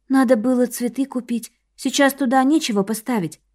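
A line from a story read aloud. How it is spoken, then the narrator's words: Quiet belated regret. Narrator (Russian): с запоздалым сожалением тихо добавила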